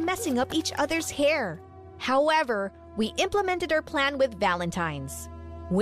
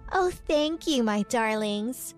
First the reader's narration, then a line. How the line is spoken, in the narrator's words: said Whitney in a sweet voice